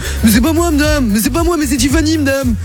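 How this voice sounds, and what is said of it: Imitates another person's voice. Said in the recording (French): “je l'imite un peu”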